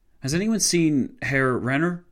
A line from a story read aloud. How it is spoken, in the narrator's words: Horton von Holzendorf asked, his voice shaking